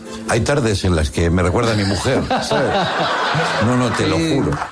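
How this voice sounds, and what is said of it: Put-on Argentine Spanish accent. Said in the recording (Spanish): “¿Te sale el acento? ... Sí, me sale el acento, che”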